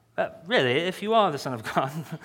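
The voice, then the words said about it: Bad put-on English accent. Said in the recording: “For all the English people, I'm sorry. ... For the bad accent”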